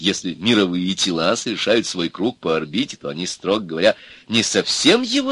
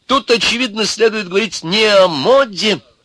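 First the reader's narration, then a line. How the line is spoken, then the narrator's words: Pompous, agitated old man. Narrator (Russian): заговорил старик важно и взволнованно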